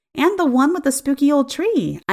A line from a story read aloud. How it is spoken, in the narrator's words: I said excitedly